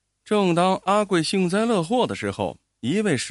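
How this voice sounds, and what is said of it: Usual voice. Nothing is said of it.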